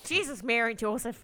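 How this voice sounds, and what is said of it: Put-on accent. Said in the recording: “Good accent.”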